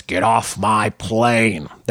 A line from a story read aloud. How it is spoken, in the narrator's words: Ford gruffly announce